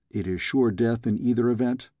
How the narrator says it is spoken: I asked

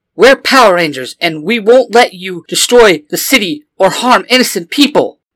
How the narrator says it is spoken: Blue Ranger shouts

